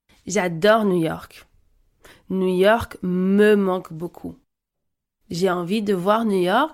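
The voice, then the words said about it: French-accented pronunciation of New York. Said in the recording (French): “Je prononce New York avec un accent français.”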